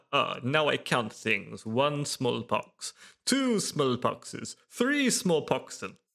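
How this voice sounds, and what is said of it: Transylvanian Dracula accent. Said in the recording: “Transylvanian accent. ... I'm not even Russian. I am Dracula.”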